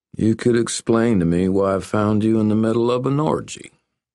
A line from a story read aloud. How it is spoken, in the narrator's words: he said in a slow rural drawl